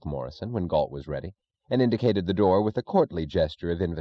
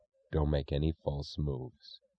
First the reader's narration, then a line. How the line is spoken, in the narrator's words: he said in an expressionless voice